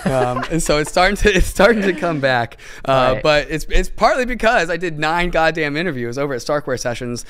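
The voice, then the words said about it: Strained, worn-out voice. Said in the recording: “that is why my voice is bent. Put my voice on the line ... sacrificing his voice”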